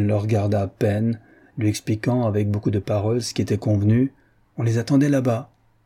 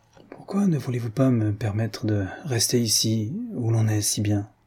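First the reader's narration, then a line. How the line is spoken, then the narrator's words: Very low voice. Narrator (French): Il parlait d'une voix très basse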